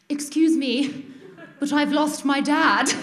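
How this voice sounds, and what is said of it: Exaggerated posh British accent. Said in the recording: “in like poshest British accent, more posh than I've ever used in my life”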